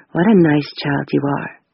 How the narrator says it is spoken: said quietly

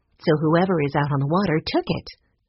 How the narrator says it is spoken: said

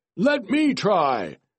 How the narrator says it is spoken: a baron shouted

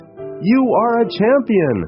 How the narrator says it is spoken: Again the man screams

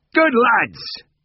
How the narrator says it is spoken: called out, cheerful as ever

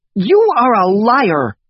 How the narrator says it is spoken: yelled Isabel

